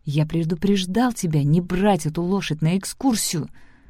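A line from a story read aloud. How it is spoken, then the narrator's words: Hissed. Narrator (Russian): прошипел голос Зора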